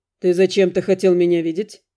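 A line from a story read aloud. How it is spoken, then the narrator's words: Calm, hiding tension. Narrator (Russian): Не выказывая внутреннего напряжения, я спокойно спросил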